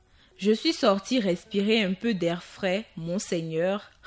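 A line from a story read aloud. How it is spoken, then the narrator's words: Plain. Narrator (French): répondit Zhenhui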